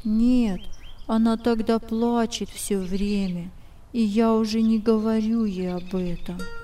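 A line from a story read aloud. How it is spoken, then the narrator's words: Sad. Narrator (Russian): Генсхен печально говорил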